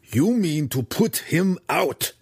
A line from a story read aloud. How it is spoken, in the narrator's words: Belwar snarled accusingly at Schnicktick